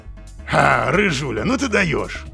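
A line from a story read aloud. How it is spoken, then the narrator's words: Amused snort. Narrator (Russian): хмыкнул Казимир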